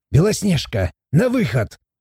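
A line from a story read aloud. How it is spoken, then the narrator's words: Barked. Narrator (Russian): рявкнул Морт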